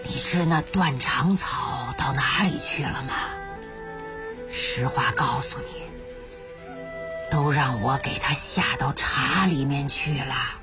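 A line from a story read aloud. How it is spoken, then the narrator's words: Soft whisper in ear. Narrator (Chinese): 轻声对着老太婆的耳朵说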